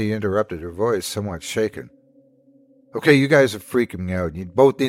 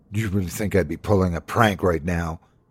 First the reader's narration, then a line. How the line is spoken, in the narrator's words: Lena snapped